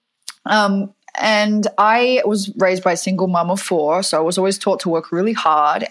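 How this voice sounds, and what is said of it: Western Australian accent, slight American tinge. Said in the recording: “I grew up in Fremantle in Perth in Western Australia, even though my accent sounds now like uh, I have a little bit of American in it”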